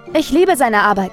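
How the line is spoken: Exclaimed. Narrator (German): rief Jules

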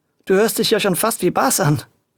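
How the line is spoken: Laughing. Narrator (German): lachte Luis

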